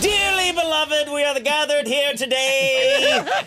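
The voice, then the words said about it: Booming preacher voice. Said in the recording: “That's my preacher voice... Oh, that's me preaching. That's what it sounds like.”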